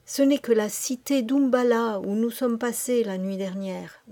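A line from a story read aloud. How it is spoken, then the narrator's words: Murmured. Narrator (French): murmura Kim au prêtre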